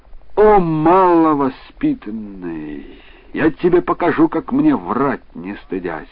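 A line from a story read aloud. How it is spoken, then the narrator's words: Angry exclamation. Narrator (Russian): купец Али рассердился и воскликнул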